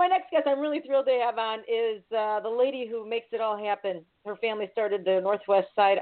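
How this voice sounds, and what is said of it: Usual voice. Nothing is said of it.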